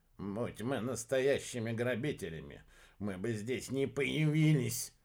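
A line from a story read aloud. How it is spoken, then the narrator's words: Grumbling. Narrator (Russian): проворчал Иха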